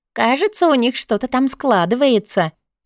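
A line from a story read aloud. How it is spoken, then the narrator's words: Giggling. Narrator (Russian): хихикнула Мини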